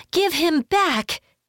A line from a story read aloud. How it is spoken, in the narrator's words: Kyoshi gasped